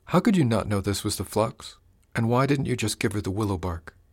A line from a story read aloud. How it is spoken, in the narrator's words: Amber sighed